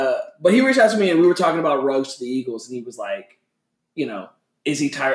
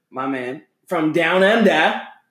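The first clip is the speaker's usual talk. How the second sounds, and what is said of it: Put-on Boston accent. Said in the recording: “He's going to be pissed off at me about that accent”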